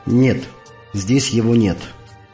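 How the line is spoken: Calm. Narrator (Russian): Он спокойно выдержал мой встревоженный взгляд, а потом сказал

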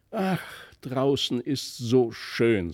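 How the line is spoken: Sighed inwardly. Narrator (German): seufzte er in sich hinein

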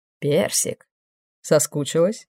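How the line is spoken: Soft, tender question. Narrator (Russian): Мягко, почти нежно спросил демон

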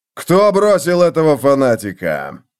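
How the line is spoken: Growl. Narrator (Russian): прорычал он

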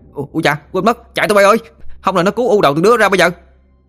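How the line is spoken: Yelping cry. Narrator (Vietnamese): Nó la lên oai oái

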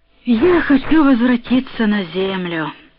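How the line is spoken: Tired. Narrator (Russian): сказал я устало

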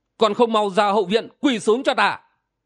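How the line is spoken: Barked command. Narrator (Vietnamese): quát bảo

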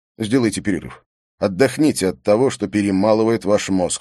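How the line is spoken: Plain. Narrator (Russian): сказал Стефанс

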